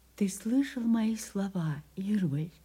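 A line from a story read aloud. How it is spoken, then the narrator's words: Quiet question. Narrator (Russian): спросила его тихо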